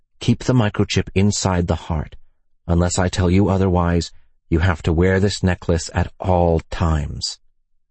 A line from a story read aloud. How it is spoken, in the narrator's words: Ethan whispered